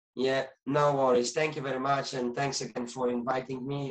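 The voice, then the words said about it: Speaks with a noticeable accent. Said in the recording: “Sorry about my accent”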